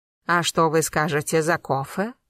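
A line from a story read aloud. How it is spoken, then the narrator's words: Low chesty female voice. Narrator (Russian): Низким грудным голосом спросила мадам Дабль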